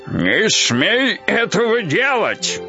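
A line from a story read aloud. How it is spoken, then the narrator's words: Loud shout. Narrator (Russian): прокричал Дед Мороз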